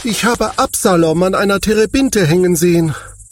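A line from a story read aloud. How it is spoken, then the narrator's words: Calling out. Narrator (German): rief er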